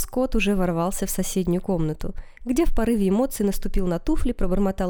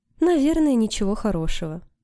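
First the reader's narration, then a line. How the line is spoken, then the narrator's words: Sigh. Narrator (Russian): вздохнула Джейн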